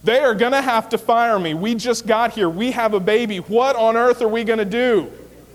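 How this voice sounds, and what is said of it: Emotional, raised yelling voice. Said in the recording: “you're not yelling at the person, but you're yelling because you're all like jacked up in the emotion”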